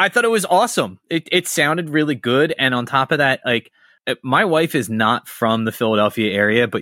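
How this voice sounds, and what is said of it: Usual voice. Nothing is said of it.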